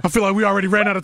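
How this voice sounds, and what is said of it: Very fast speech. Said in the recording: “Why am I talking so fast?”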